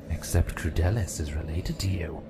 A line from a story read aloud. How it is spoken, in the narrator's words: Sir Penz sneered